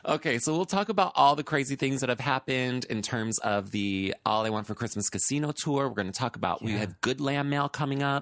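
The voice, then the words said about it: Congested voice from a cold. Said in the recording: “I have a little bit of a cold,... An upper respiratory infection.”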